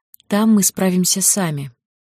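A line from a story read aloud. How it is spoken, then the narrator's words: Soft smiling voice. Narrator (Russian): мягко улыбнулась Ли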